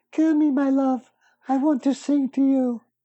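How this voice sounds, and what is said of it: Miss Piggy character voice. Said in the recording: “Can you do Miss Piggy too? ... Don't you think that was a good Miss Piggy?”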